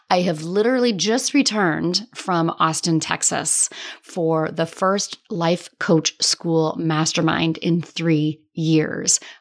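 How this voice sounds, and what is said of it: Slightly hoarse, froggy voice. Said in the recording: “little froggy in the voice ... my voice is just, it's a little much, guys. My voice is a little froggy.”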